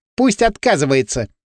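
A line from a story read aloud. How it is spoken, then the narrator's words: Snide. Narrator (Russian): ехидно сказала Танька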